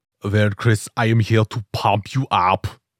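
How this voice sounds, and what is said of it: Put-on comedic accent. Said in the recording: “I'm not even going to try to do that accent. That was brilliant. I just got to say, that was amazing.”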